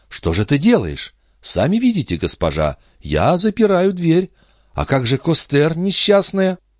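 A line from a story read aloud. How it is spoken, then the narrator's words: Exclamation. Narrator (Russian): ее хозяйка воскликнула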